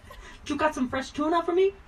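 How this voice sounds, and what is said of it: Put-on accent for a cat. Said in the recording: “I kind of hear mine speaking with a New York accent ... I don't think that was a New York, but anyway, I don't know what kind of accent that was.”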